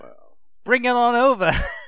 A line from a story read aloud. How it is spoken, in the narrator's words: he laughed